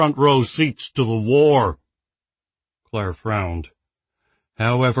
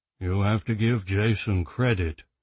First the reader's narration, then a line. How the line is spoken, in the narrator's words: Robert murmured into the silence